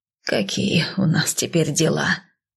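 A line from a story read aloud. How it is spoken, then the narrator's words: Resigned exhale. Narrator (Russian): Выдохнула как-то обреченно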